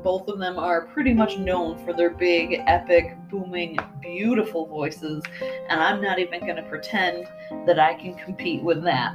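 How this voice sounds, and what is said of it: Nasal Midwestern American accent. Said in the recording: “my nasal, allergy-afflicted Midwestern accent”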